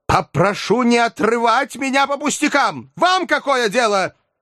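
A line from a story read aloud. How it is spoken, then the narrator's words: Flushed angry shout. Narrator (Russian): покраснел и закричал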